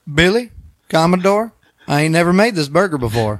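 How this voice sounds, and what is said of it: Put-on Southern US accent. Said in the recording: “I don't want to do the accent ... Is it Southern? ... Ooh, yes. ... That's not bad.”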